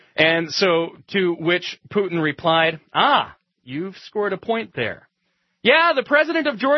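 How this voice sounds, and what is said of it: Usual voice. Nothing is said of it.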